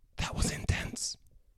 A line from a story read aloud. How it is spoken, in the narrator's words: Chris whispered